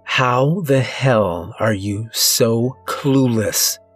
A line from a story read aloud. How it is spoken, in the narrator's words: She hisses angrily